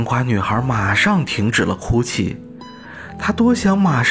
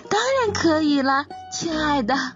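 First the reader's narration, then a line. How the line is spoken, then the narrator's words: Quiet pumpkin voice. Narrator (Chinese): 一只被瓜藤遮盖住的南瓜小声地说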